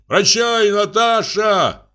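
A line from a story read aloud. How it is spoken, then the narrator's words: Shouting. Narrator (Russian): крикнул помещик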